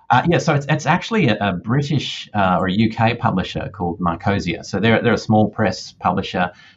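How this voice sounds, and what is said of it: Australian accent. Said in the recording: “in case the accent didn't tip you off, that's where ... is... I am definitely Australian”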